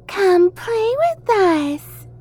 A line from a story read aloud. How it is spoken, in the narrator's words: Matilda said in a high, childlike voice